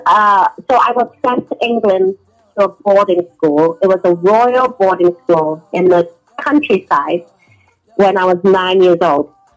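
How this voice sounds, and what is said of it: International accent, British-learned English. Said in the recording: “because of my accent ... I call it the international accent ... I really properly learned English in a British boarding school”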